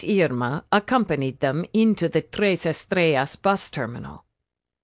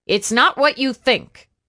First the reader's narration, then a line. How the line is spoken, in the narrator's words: she snapped at him